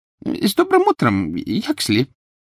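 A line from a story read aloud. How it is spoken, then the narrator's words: Servile squeak. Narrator (Russian): Кто-то раболепно пискнул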